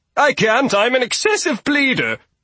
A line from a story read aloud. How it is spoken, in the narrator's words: Toby yelped